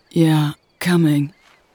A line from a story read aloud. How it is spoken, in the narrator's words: she groaned